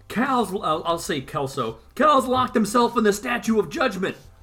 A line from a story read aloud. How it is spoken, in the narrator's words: one of the other judges is yelling out